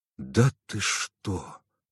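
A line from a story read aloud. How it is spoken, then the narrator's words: Forced out. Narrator (Russian): выдавил я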